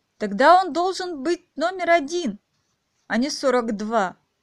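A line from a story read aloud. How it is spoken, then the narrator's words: Exclaiming. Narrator (Russian): воскликнула Алиса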